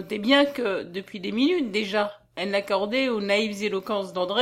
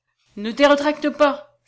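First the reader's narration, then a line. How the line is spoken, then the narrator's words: Exclaiming. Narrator (French): s'écria-t-il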